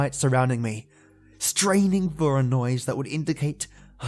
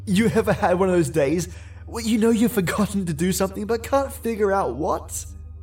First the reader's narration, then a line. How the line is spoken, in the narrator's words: I laughed as I said it